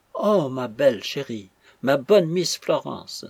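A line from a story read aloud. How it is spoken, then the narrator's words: Exclaiming. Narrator (French): s'écria Suzanne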